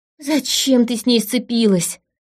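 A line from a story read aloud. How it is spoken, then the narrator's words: Moaning. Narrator (Russian): простонала подруга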